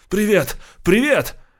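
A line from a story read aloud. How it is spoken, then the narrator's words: Tired shouting while running. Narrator (Russian): на него сразу навалилась усталость, но он бежал и кричал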